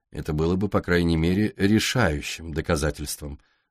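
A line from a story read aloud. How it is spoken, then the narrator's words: Dry. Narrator (Russian): сухо ответил Дэвид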